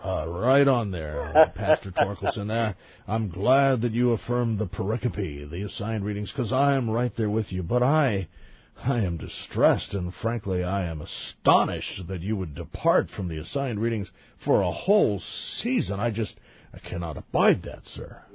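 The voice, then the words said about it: Mock pastor voice. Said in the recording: “do my pastor voice”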